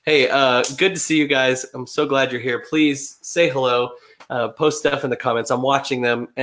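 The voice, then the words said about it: Deep, raspy voice from a cold. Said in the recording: “I've become a bass today. The cold has got me. ... raspy time.”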